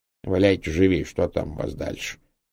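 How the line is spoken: Muttering. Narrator (Russian): пробурчал он

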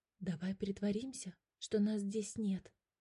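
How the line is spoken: Quiet. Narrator (Russian): тихо сказал

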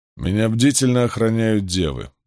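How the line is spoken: Grim remark. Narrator (Russian): мрачно заметил он

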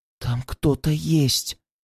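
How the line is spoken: Whisper. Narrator (Russian): прошептала она

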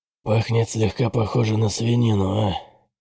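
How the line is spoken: Hoarse voice. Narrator (Russian): хрипло сказал Бытрим

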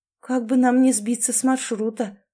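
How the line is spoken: Sighing. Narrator (Russian): вздохнула Мэри

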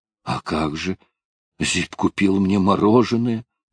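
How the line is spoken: Grumble. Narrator (Russian): пробурчал

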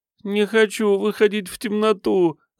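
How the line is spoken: Whimpering. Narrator (Russian): захныкал тот

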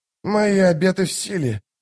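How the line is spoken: Hoarse rasp. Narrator (Russian): прохрипел солдат

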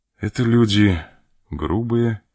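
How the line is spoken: Sad reply. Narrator (Russian): отвечал граф, печально

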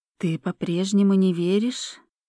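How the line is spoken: Plain. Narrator (Russian): спросила Ольга

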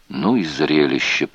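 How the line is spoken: Whispered. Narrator (Russian): прошептал Розен

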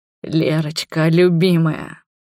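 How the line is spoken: Hoarse whisper. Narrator (Russian): хрипло шептал он

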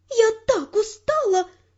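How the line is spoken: Exclaiming. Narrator (Russian): воскликнула у меня за спиной Жули

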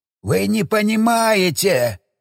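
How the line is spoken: Howling old man. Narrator (Russian): взвыл старик

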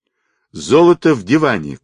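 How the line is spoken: Shout. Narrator (Russian): крикнул полковник

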